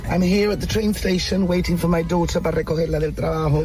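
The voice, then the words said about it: English with Llanito accent. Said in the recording (Spanish): “un inglés con acento llanito, pero perfecto? Y el acento. Oh, es maravilloso.”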